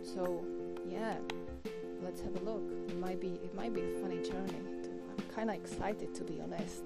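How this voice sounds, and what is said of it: Non-native English accent. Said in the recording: “I wasn't born in an English-speaking country. English is not my first language... my accent... my English or my accent is pretty harsh”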